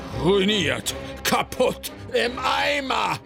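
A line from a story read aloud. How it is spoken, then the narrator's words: Shouting. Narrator (German): schrie Schnöpf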